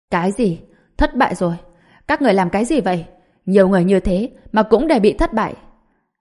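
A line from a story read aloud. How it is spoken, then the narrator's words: Angry shouting over phone. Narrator (Vietnamese): Giang Quốc Thịnh giận dữ giống lên qua điện thoại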